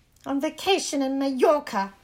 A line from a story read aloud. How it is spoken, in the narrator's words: snapped Aunt Petunia